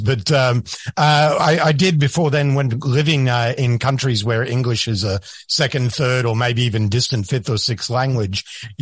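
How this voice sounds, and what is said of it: Australian accent. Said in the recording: “my Australian accent has definitely gotten stronger since I moved to the United States”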